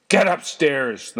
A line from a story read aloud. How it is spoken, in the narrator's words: thundered Mr